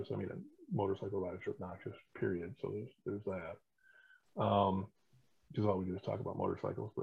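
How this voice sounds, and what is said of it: Very quiet, hard-to-hear voice. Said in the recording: “bedroom voice? Because I'm having a hell of a hard time hearing you.”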